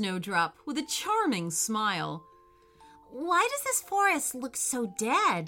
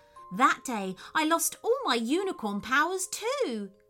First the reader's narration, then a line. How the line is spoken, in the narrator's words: cried Snowdrop